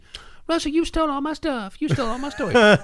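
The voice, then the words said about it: Imitates another person's voice. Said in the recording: “my Jen imitation”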